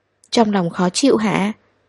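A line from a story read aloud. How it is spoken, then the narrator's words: Quiet question. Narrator (Vietnamese): anh nhỏ giọng hỏi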